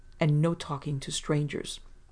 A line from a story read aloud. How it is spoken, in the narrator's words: said firmly